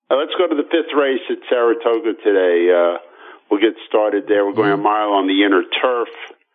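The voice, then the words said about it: Slightly stuffy, congested voice. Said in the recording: “As you can hear, I have a little cold.”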